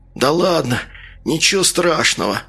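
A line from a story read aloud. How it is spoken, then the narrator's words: Weak voice. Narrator (Russian): слабым голосом ответил тот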